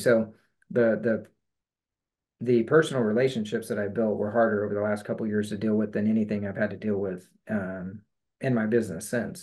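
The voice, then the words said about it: Choked-up, emotional voice. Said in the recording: “I'm getting a little choked up”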